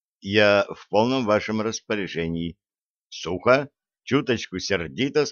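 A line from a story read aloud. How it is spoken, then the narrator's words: Plain. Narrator (Russian): сказал поручик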